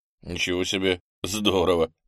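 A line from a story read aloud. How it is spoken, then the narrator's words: Laughing. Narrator (Russian): засмеялся Андрей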